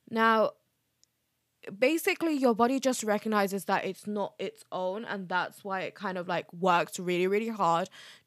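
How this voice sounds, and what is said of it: Voice of someone with a cold. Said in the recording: “even though I have a cold”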